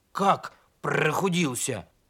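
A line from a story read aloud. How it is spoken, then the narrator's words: Grumbling. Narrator (Russian): проворчал ослик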